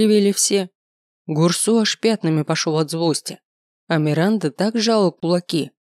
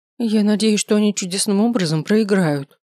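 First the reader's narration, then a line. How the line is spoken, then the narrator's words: Groaned. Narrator (Russian): простонала Миранда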